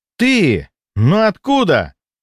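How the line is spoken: Young man exclaiming. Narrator (Russian): воскликнул молодой человек

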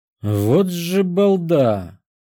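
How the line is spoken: Drawled. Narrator (Russian): протянул я

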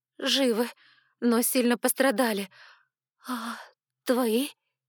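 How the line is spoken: Frightened whisper. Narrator (Russian): Испуганно шепнула в ответ

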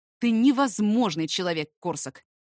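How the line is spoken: Irritated exhale. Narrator (Russian): выдохнул раздраженно

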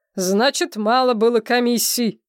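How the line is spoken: Growl. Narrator (Russian): прорычал Глеб

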